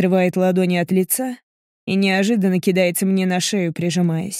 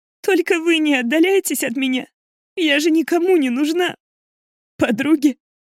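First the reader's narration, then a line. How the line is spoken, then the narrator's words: Bitter laugh through tears. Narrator (Russian): Горько усмехается сквозь слезы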